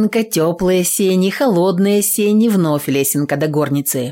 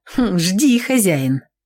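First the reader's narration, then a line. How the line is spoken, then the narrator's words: Smirking snort. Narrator (Russian): хмыкнула Аксинья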